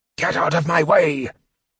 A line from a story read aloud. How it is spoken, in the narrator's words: the mage hissed